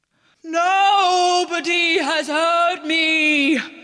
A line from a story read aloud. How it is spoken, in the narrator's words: wailed the Cyclops